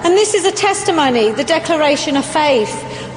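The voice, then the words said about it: London English accent. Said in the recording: “I actually come from the UK. I'm a Londoner. Maybe you can tell by my accent.”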